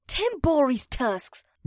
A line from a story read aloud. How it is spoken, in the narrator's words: Batari hissed